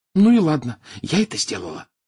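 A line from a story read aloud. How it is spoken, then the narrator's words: Whispered. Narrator (Russian): прошептала она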